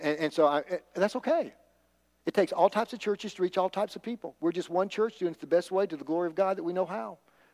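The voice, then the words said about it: Man with a southern accent. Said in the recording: “the little short, bald-headed guy with a southern accent.”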